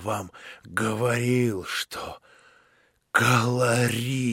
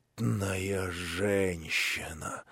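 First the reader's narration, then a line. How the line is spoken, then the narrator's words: Shaken mumble. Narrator (Russian): пробормотал тоже отчасти побледневший Афанасий Иванович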